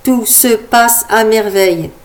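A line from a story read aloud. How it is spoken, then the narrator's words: Plain. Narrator (French): répondit-il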